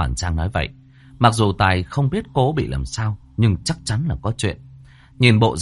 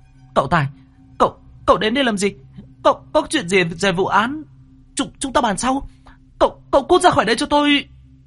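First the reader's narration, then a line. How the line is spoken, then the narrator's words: Shout. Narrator (Vietnamese): Cô hét lên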